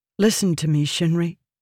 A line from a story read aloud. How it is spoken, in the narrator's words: Renarin said gravely